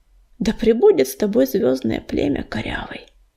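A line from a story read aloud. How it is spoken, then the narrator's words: Whispered. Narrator (Russian): прошептала она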